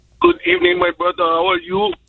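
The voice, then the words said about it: Caller speaking with a foreign accent. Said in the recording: “I hear the accent, and this ain't no brother on the line messing around, is it, with that accent.”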